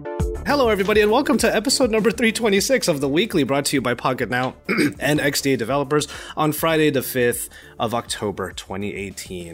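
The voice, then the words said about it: Slightly sick, under-the-weather voice. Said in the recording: “if you can't hear it in my voice already, I am your slightly under the weather cross-country podcaster”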